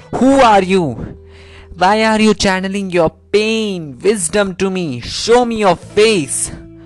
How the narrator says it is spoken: Bhairava shouts loud

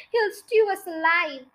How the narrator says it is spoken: wailed the second one

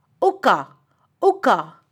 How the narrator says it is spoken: Joju called out once again

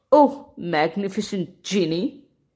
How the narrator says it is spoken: added mockingly

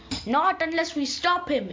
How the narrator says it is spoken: Ares roared

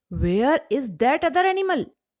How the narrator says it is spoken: He was all the more angry and shouted

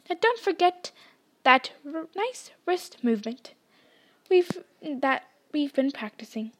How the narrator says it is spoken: squeaked Professor Flitwick

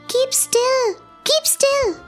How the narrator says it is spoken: cried the mouse

